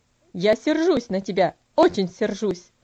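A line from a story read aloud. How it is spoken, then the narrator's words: Stern tone. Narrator (Russian): ответил он тем же суровым тоном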